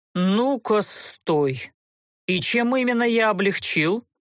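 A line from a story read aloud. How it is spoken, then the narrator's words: Restrained angry growl. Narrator (Russian): Едва сдерживаясь, чтобы не взорваться, рыкнул герцог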